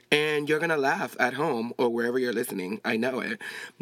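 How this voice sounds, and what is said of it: Latinx accent. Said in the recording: “I am Latinx, so I have an accent, so sometimes I don't know how to say words”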